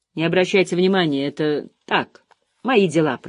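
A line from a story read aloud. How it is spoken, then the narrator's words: Muttering. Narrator (Russian): пробормотал Харт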